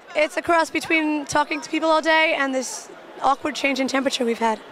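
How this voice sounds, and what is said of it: Slightly raspy, hoarse voice. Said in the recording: “lost your voice a little bit... A little bit. I'm a little raspy.”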